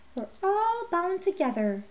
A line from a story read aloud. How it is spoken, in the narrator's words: the old man murmured